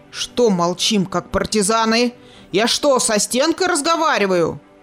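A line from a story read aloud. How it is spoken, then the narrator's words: Barking shout. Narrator (Russian): Рявкнул Кудияр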